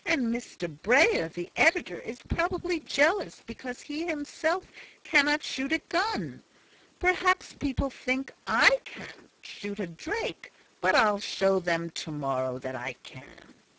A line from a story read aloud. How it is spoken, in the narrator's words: exclaimed the little man, much provoked